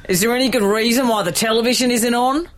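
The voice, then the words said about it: Impression of an Australian TV dad. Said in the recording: “do an impression, two impressions... It's the dad in Sylvania Waters, which is an Australian reality soap”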